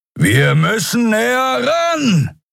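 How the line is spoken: Shouting over howling wind. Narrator (German): rief Keru über den heulenden Fahrtwind

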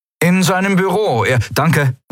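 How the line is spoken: Calling out. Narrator (German): rief Kai

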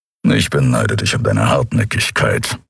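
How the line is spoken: Grumbling. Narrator (German): brummte Keru

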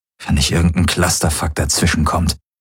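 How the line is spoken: Murmuring. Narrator (German): murmelte

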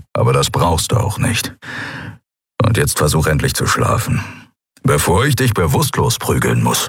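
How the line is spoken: Grumble. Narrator (German): brummte er

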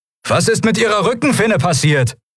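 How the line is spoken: Shouting against the wind. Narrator (German): rief Kai gegen die Elemente an

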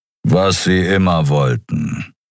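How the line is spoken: Growl. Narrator (German): knurrte Kero

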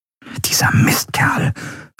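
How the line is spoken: Whispered. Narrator (German): flüsterte Endriel

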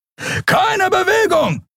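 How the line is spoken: Shouted. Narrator (German): schrie ein Weißmantel

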